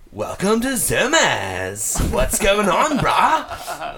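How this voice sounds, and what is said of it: Effeminate surfer dude voice. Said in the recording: “do a good impression of his voice. It's like surfer dude, like mixed with like a gay guy... it's like a little effeminate, but like surfer duty”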